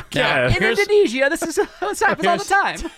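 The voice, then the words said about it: Put-on Indonesian accent. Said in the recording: “That's a good Indonesian ... accent. ... Pretty good.”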